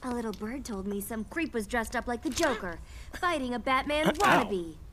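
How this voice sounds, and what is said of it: Cartoon character voice, Brooklyn accent. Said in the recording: “Harley Quinn's You're Brooklyn accent”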